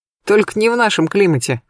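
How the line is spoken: Short laugh. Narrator (Russian): хохотнул Олег

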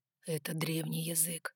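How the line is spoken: Whispered explanation. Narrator (Russian): шепотом пояснил Ноа

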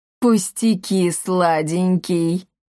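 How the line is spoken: Deep bass voice. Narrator (Russian): пробасила она

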